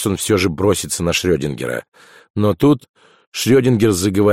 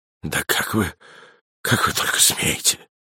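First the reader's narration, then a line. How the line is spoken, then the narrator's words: Bitter whisper. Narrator (Russian): прошептал он горько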